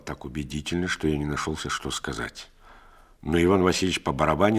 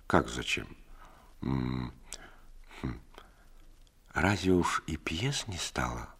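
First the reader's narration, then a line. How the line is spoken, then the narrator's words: Gentle, reproachful. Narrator (Russian): ласково, укоризненно спросила Настасья Ивановна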